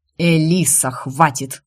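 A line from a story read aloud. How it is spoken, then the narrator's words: Sudden angry growl. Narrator (Russian): Внезапно зло рыкнул Марко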